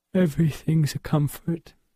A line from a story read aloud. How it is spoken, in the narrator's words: said Helen with a yawn